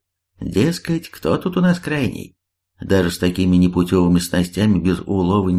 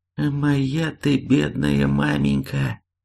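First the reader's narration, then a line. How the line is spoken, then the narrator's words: Trembling voice. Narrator (Russian): дрожащим голосом отозвался егерь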